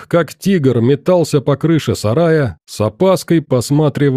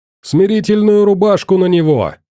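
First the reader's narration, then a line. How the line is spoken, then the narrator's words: Yelling doctor. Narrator (Russian): орал доктор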